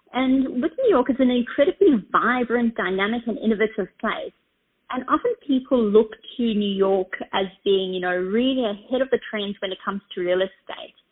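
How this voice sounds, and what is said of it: Australian accent. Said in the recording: “I'm Australian, in case you're trying to guess my accent.”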